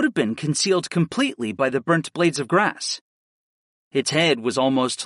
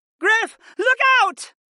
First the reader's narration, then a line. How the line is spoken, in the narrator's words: Sarah shouted